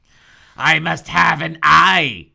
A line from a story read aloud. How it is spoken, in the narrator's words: Peter howled